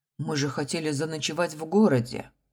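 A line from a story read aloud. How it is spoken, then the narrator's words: Sulky child. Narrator (Russian): Малыш обиженно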